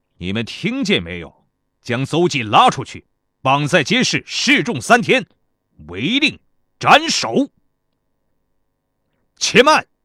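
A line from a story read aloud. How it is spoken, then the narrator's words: Stern. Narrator (Chinese): 孙膑厉声道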